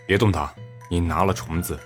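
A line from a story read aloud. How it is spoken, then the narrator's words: Cold. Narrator (Chinese): 冷声道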